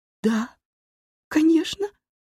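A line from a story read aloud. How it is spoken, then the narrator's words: Sobbing. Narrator (Russian): всхлипнула я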